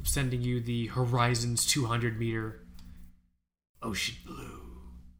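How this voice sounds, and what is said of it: Creepy whispering. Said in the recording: “why am I whispering so much in this episode? I'm doing, I'm doing a lot of like fucking creepy ass whispering.”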